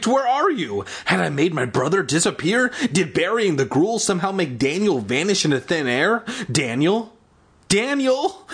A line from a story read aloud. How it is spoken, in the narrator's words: I called in a trembling voice